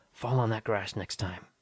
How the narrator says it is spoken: praying under my breath

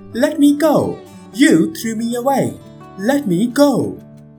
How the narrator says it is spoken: the wild boy struggled to free himself and cried out

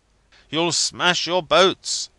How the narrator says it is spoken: I cried out again and again, as the sea crashed on the cabin over my head

